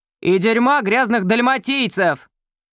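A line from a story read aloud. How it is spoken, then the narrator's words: Shouted, bearded man. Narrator (Russian): крикнул бородатый мужчина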